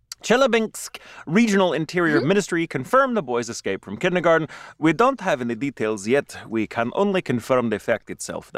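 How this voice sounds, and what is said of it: Poor put-on Russian accent. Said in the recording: “That was a terrible Russian accent.”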